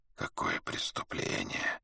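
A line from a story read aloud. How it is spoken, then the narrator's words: Whispering dervish. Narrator (Russian): прошептал дервиш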